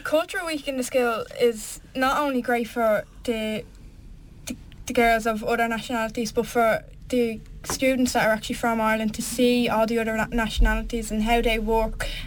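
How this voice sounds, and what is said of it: Irish accent. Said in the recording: “I'm Irish ... No one could tell with that accent.”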